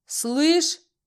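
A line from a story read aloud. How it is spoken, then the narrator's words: Roared. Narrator (Russian): взревел Алюсик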